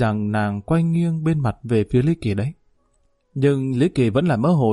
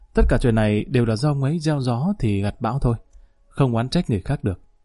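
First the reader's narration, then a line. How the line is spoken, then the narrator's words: Holding back a sigh. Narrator (Vietnamese): nàng cố kìm lại một tiếng thở dài, nói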